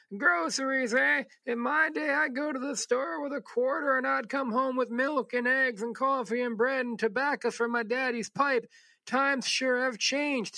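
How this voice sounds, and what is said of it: Stereotypical old man voice. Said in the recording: “that's a pretty traditional, hacky old man voice”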